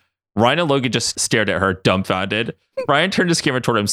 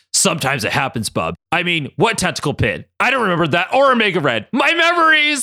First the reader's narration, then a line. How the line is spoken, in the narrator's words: Logan cried out